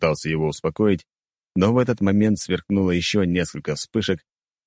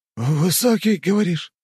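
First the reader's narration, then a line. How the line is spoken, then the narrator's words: Hoarse voice. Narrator (Russian): проговорил хриплым голосом барон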